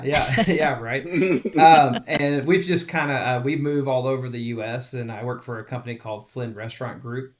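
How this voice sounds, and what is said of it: Texan accent. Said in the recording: “I'm originally from Texas, down the DFW area. ... I think we get that from the accent.”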